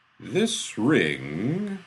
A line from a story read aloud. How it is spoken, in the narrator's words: Askinyale said slowly